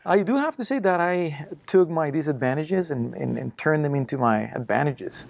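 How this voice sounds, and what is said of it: Thick foreign accent. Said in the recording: “I have a huge, thick accent right now.”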